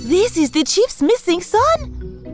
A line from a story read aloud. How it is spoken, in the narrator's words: she cried out